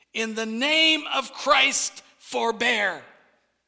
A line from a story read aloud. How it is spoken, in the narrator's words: yelled loudly